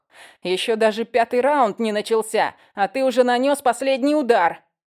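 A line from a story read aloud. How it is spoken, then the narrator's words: Yelling. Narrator (Russian): Заорал Шон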